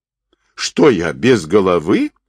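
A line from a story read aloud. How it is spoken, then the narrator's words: Offended retort. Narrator (Russian): обиженно вскинулся Доритай Очигин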